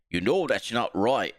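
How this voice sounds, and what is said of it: Impression slipping into British accent. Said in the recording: “That's a British accent ... British Jesse Ventura ... I can't do a Minnesota accent that well”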